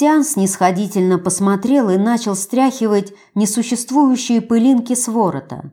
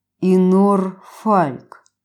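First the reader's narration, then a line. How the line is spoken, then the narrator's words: Through gritted teeth. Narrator (Russian): процедил Штаден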